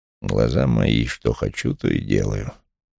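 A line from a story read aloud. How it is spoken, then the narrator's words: Mumbled. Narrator (Russian): пробормотал Вулф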